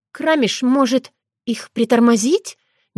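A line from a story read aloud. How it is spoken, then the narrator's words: Uncertain suggestion. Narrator (Russian): неуверенно предложила Таня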